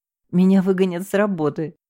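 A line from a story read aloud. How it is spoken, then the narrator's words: Sighing. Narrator (Russian): вздохнула я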